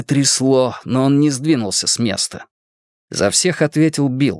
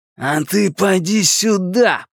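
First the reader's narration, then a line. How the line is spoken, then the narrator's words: Growled. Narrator (Russian): прорычал Генри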